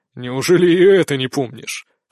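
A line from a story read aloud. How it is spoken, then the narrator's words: Mentor's scoffing grunt. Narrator (Russian): хмыкнул наставник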